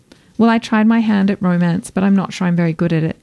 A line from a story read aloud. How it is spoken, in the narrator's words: I said